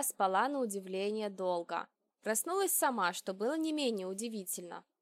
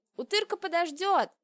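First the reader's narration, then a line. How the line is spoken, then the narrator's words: Shouting. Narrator (Russian): крикнул я Аршхану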